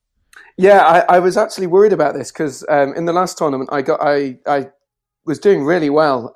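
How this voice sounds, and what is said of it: Non-Australian accent. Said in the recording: “It's good to hear a different voice and a different accent. We've not used to the non-Australian accents”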